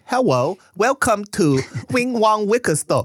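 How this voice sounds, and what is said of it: Put-on thick Asian accent. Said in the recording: “you have a thick Asian accent ... That's the accent you have to do.”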